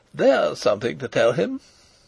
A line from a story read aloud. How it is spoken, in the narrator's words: said Rupert carelessly